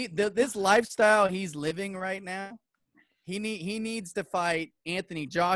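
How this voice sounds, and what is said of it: Usual voice. Nothing is said of it.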